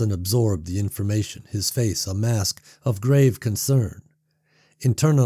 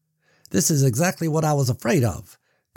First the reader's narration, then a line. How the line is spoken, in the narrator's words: Carson said, his voice smooth and urgent